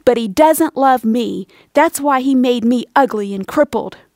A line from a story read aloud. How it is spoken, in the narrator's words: angrily replied